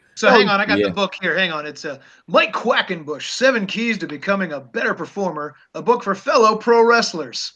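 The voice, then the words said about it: Over-enunciated smooth radio voice. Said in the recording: “my Mike Quackenbush impression ... It's way over enunciated ... He's got a smooth radio voice ... he's got a very imitatable voice”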